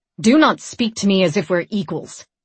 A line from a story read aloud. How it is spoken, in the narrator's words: she snapped